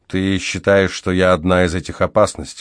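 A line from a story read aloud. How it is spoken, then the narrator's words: Even voice. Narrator (Russian): ровным голосом проговорил я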